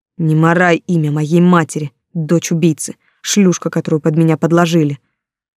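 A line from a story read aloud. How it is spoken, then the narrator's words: Hateful hiss. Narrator (Russian): с ненавистью зашипела ему в лицо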